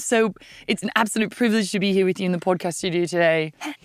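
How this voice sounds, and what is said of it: Put-on English accent. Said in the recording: “Should we keep the accents up?... We thought we'd do accents for the whole episode... I've been told by a man who is from England that my accent was brilliant”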